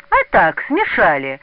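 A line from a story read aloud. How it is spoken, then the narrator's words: Mocking. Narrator (Russian): насмешливо сказал Тишин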